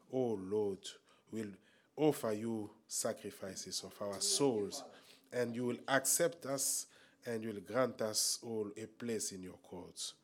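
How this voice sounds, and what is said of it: Congested, stuffy-nosed voice. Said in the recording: “my voice is a little bit, I have a running nose”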